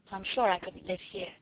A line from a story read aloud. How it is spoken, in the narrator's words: she added in a low voice